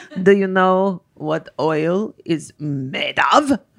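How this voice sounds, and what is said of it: Clumsy put-on accent sounding like Dracula. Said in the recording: “I can't do the accent. I sound like Dracula”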